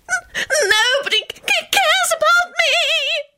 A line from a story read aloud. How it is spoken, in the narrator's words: Loretta howled